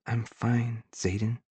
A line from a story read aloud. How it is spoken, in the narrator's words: she says softly